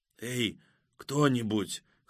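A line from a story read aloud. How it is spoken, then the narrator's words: Hoarse call. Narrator (Russian): хрипло позвал младший Мехти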